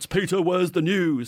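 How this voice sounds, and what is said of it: Shouted imitation of another person. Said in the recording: “Dorian normally shouts ... That's a good impression of Dorian, isn't it?”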